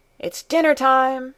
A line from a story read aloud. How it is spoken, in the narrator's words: All of a sudden he called at the top of his voice